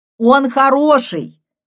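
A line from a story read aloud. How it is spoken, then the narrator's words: Loud lecturing tone. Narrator (Russian): громко повторил Арончик голосом опытного лектора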